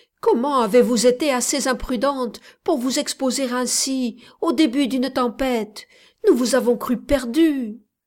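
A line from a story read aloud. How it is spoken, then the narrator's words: Exclaiming. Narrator (French): s'écria-t-il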